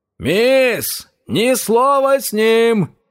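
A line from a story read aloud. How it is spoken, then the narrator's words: Shouted. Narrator (Russian): крикнул Джеймс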